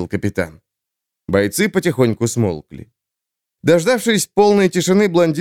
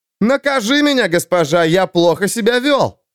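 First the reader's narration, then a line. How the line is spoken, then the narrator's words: Shouted through loud laughter. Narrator (Russian): Сквозь громкий смех выкрикнул кто-то еще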